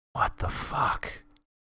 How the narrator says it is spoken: breathed

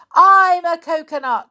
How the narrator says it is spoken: he shouted

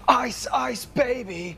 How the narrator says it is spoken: he shouts

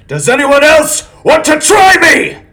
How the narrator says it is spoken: He shouted

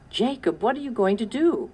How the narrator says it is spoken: cried Sarah

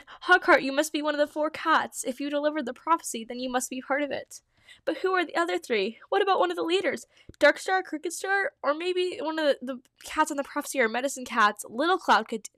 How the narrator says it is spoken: he exclaimed

